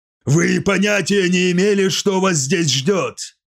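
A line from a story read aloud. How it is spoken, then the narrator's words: Shouted. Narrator (Russian): крикнул он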